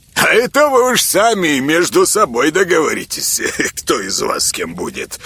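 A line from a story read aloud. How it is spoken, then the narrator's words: Old man chuckling. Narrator (Russian): хохотнул дед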